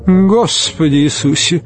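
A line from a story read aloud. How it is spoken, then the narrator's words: Snorting. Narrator (Russian): фыркнул первый модник, видать, набожный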